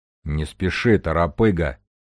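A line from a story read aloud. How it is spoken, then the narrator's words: Deep bass. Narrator (Russian): пробасил Железовский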